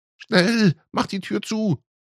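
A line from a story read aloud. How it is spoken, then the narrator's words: Mother calling in panic. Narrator (German): rief Mutti panisch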